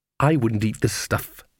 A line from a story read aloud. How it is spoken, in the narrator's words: said bitterly